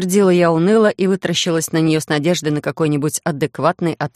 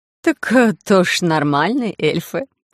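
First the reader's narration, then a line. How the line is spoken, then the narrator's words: Rough guffaw. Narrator (Russian): грубовато хохотнула Элла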